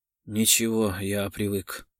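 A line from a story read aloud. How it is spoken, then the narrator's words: Dry. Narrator (Russian): сухо сказал Гаспарян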